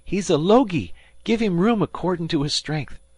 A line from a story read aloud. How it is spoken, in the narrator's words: cried Dan